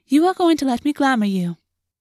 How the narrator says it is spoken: Crielle said smoothly

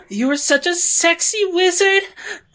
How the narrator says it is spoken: I moaned

